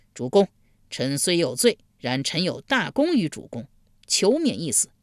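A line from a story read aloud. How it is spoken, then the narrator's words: Loud plea. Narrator (Chinese): 贾华高声呼道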